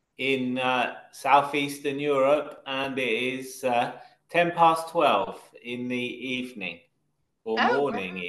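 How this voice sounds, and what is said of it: London English accent. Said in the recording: “I'm from the UK. I'm from Britain. ... About 20 miles from central London. ... my accent is a kind of London accent.”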